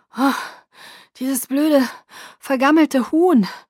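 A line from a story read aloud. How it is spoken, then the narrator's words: Groaning. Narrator (German): stöhnte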